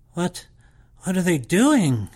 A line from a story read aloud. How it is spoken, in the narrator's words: I gasped